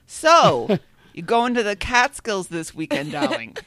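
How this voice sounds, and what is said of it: Put-on New York Jewish accent. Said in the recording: “in a perfect New York Jewish accent, no mean feat”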